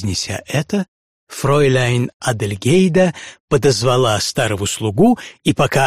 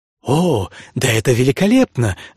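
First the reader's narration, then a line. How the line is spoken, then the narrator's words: Baroness exclaiming. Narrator (Russian): воскликнула баронесса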